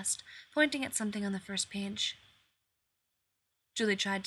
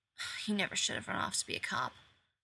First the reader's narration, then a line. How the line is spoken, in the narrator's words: Nice Suit muttered